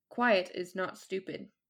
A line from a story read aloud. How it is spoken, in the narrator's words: he said, his voice flat